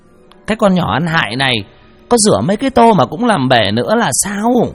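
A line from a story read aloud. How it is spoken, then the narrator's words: Shrieking hiss. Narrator (Vietnamese): Bà rít lên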